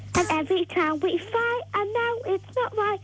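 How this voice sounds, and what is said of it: Put-on Cockney accent while singing. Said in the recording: “I like the Cockney accent you're putting on too. ... I've got a sore throat. ... you can do a Cockney accent as well”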